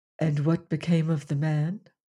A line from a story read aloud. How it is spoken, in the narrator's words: Leonard asked, speaking as quietly as he could, for his excitement was great